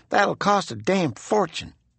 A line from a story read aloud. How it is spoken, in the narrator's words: Sonny Summers muttered